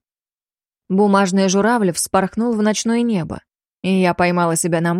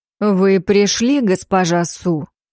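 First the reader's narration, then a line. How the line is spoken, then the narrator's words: Plain. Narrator (Russian): сказал он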